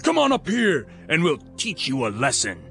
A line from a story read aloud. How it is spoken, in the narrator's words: Then they shouted to Jonathan